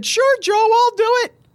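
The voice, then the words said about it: Put-on girl voice. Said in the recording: “that was my girl voice”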